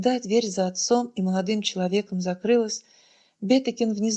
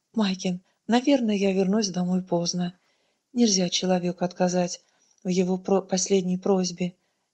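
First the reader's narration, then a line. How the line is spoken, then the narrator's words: Soft reply. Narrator (Russian): мягко ответила она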